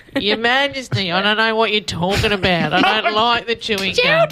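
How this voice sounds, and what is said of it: Awkward Australian accent, pinched nasal. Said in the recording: “that's an awkward Australian accent and all you're doing is pinching your nose.”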